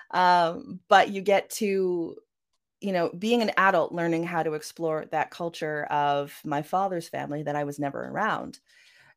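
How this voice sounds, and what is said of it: Canadian Vancouver accent. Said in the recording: “as you can hear from my accent ... that Vancouver accent of mine”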